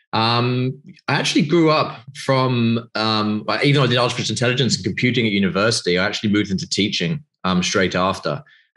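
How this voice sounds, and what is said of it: British English accent. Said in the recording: “I'm obviously from the UK, as you know, from my accent.”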